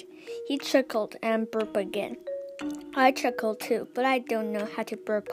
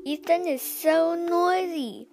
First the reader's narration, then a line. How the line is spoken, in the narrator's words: my little sister Hazel whined